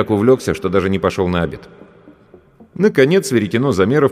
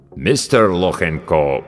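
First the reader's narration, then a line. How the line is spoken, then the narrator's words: Deep voice, mangling name. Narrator (Russian): пробасил авербанкаща, как обычно, безбожно коверкая фамилию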